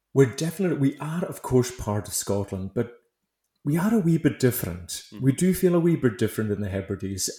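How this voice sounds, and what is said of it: Hebridean Scottish accent. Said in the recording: “this funny accent you're hearing at the moment”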